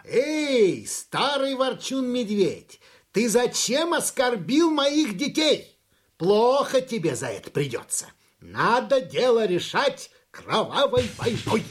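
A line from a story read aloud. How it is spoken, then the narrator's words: Shouting. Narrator (Russian): закричал у самого лаза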